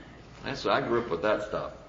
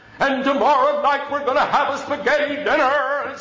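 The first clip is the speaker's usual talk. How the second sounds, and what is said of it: Exaggerated preacher announcing voice. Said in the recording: “put on the preacher voice ... announcing in the preacher voice”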